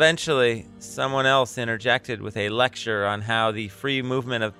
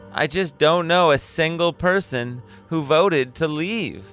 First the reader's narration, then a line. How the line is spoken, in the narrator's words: exclaimed